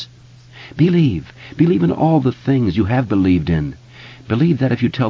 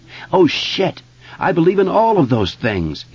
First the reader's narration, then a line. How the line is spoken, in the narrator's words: he shouted